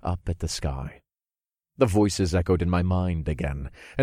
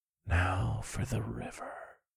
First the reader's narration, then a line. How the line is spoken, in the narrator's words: I whispered, and I felt like I was high on the most intoxicating drug in all the realms